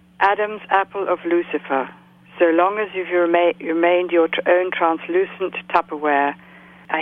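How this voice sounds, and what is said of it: Dulcet generic English accent. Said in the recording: “a holder of a lovely English accent ... from Dorset, southwest of England ... It's not a regional accent of any kind. It's just a kind of generic English accent ... one of the more dulcet-toned accents”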